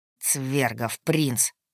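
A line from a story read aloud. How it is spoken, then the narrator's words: Muffled through teeth. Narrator (Russian): процедил Хоргин, прикрывая рот рукой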